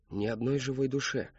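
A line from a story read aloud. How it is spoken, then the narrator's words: Barely audible promise. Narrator (Russian): чуть слышно пообещал Кристофер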